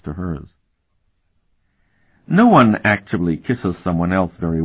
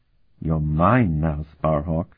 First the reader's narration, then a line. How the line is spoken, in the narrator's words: she murmured with her lips still touching his